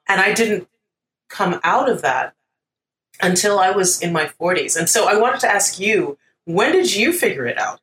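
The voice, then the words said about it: American accent. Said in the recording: “this American accent that I'm speaking to you with”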